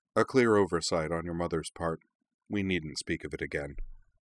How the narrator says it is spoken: The Headmaster smiled a little sadly and said only

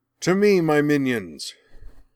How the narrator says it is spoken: With an exasperated shake of her head, she shouted over the still howling wind

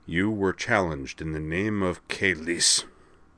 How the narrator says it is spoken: he informed Claivor in a low, dangerous voice

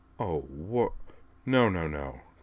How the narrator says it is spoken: murmured in disbelief

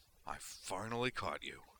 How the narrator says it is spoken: Griffin snarled through his teeth

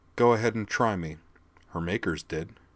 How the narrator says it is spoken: said coldly

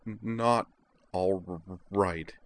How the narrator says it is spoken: Kate replied miserably

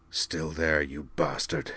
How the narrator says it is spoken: he murmured suddenly, the anger in his voice making it deeper, thicker than normal

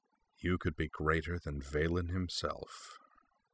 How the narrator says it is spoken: he added in a low, almost inaudible voice

